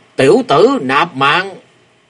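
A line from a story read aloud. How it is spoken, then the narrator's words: Roaring voice. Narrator (Vietnamese): có tiếng gầm vang lên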